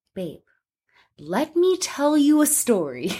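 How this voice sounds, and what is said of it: Mock investigative reporter voice. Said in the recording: “I was trying to put on an investigative reporter voice. ... That's how investigative reporters talk.”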